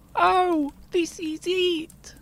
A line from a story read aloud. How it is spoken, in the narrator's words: wailed Smee